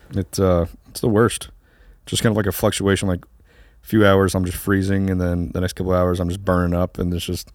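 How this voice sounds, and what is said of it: Hoarse, congested voice. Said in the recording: “My voice is a little hoarse. ... getting over a little bit of a sickness, something, congestion”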